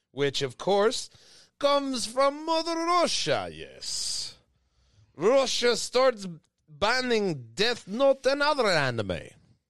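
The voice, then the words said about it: Put-on Russian accent. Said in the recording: “just an excuse for me to use my Russian accent.”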